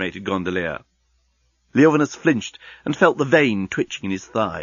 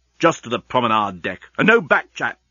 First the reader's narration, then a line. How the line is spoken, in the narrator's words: snapped Leovinus